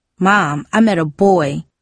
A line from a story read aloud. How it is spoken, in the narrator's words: Darcy blurted out